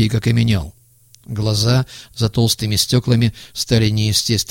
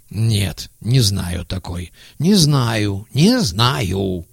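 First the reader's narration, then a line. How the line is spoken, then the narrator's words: Forced out. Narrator (Russian): выдавил он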